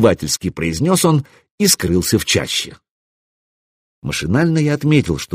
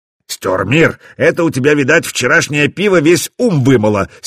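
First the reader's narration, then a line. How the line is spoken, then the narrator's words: Angry interruption. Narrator (Russian): сердито перебил Свартхёвди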